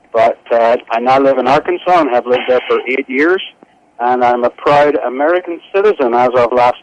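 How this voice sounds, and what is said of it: Northern Irish accent. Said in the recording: “very unique and distinct accents ... one's from Brooklyn and the other's from Belfast ... Actually, Bangor.”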